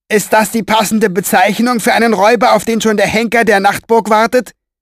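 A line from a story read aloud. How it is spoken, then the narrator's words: Called out. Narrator (German): rief er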